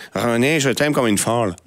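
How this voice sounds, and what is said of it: Put-on Québécois French accent. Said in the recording (French): “je voulais faire l'accent pour la chronique ... l'accent un petit peu québécois”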